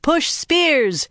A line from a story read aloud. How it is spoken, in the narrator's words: shouted